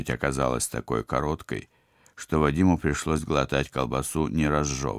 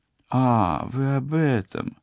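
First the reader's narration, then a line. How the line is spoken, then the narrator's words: Confused drawl. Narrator (Russian): растерянно протянула оператор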